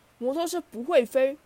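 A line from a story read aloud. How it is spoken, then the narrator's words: Snickering. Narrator (Chinese): 达利和皮尔痴痴窃笑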